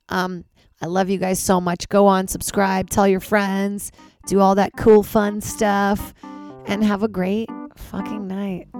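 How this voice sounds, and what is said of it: Voice nearly gone. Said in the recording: “my voice is gone”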